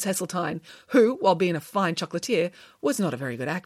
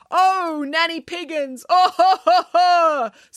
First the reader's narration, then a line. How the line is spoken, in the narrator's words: sobbed Mrs